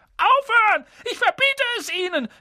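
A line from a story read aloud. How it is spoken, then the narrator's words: Panicked shouting. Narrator (German): schrie Onkel Vernon in Panik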